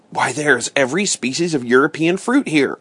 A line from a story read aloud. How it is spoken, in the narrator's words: I cried